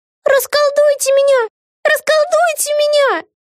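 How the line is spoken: Shrieking. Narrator (Russian): Завизжала Вега

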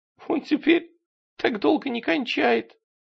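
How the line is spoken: Sobbing woman. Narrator (Russian): Она еще раз всхлипнула

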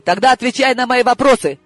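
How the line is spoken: Barked. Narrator (Russian): рявкнула я

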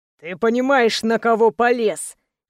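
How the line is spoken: Wheezing while fighting. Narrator (Russian): хрипел в ответ Давид, ударяя Греха

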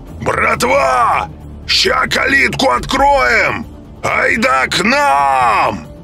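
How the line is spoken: Inhumanly loud shouting. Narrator (Russian): Коха кричал нечеловечески громко

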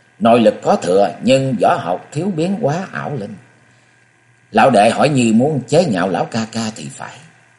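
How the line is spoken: Resentful, sulky. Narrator (Vietnamese): Nhan Di Hải hậm hực nói

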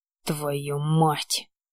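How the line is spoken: Hissed under breath. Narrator (Russian): прошипел себе под нос

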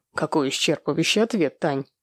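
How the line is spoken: Mocking tone. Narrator (Russian): насмешливым тоном проговорил Владимир

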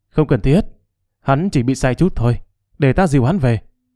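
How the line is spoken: Amused, smiling. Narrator (Vietnamese): Lục Tiệm không kìm được mỉm cười, nói

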